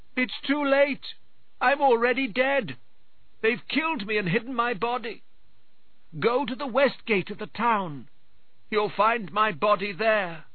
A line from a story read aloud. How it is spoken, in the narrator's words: The third time, the man in the farmhouse cried